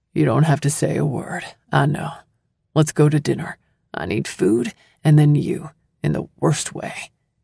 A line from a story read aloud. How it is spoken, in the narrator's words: In a husky voice, he answers